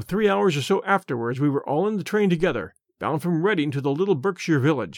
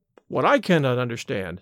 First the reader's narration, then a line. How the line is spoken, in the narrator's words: said I